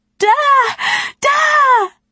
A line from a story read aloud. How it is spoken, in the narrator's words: shrieking